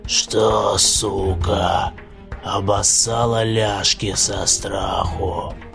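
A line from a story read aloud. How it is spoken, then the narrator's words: Creature hissing. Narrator (Russian): Прошипела тварь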